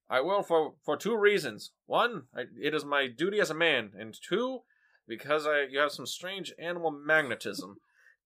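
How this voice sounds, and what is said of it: Awful put-on character voice. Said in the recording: “Your accent or your interpretations of Spofford. ... Both their voices are awful. ... Horrible. ... the dumb voice guy”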